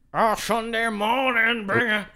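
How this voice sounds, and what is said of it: Imitates another person's singing voice. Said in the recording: “Scott Stapp from Creed? Everyone can do that impression. ... It's kind of the same as Eddie Vedder, though”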